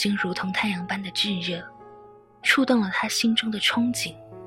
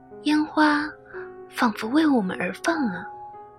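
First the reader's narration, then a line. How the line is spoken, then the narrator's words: Blissful sigh. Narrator (Chinese): 被陶醉的若兰，满怀幸福的叹道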